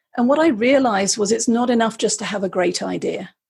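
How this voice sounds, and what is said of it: British accent. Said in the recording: “as you can guess from the accent, I'm originally from the UK”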